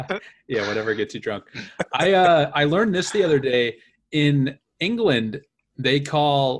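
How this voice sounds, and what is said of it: Usual voice. Nothing is said of it.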